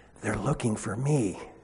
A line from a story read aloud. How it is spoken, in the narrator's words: Still whispering, the young voice replied, along with some muffled giggles